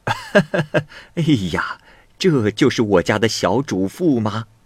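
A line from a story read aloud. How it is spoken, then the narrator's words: Amazed exclamation. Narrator (Chinese): 女仆 惊叹着说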